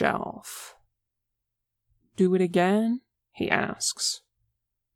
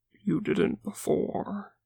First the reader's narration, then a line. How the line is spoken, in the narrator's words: Zuko whispers